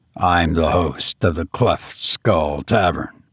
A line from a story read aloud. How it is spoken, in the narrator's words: sullenly replied the other